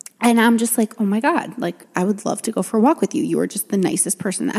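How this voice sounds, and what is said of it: Usual voice. Nothing is said of it.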